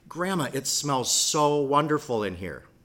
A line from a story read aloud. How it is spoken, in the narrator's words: she exclaimed